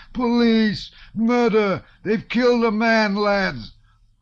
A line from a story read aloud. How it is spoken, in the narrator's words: the first smith shouted in a tearful voice